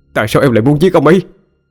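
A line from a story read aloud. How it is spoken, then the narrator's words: Near shout. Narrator (Vietnamese): Cậu hổ như hét lên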